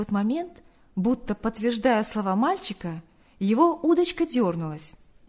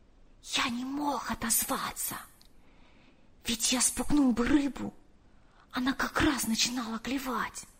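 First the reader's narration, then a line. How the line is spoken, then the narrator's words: Whisper. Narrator (Russian): прошептал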